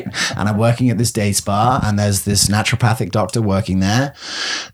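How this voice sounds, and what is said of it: English accent. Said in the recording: “I'm the only one with the English accent”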